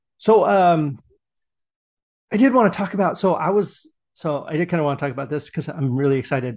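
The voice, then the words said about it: Strained, worn-out hoarse voice. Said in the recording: “my voice is a little bit shot ... some things just kind of sound a little bit out of whack”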